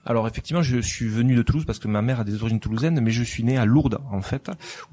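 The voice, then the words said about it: Southern French accent from Toulouse. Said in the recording (French): “on a remarqué un petit peu à ton accent que tu venais du sud de la France, de Toulouse plus exactement”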